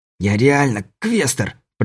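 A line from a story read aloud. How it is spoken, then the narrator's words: Hissed. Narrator (Russian): прошипел Кобельков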